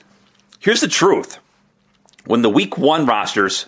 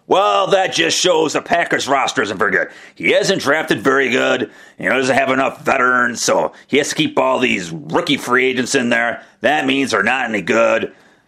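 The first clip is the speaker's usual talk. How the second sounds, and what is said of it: Impersonating an upset Packers fan. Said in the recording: “my impersonation of the upset Packer fan.”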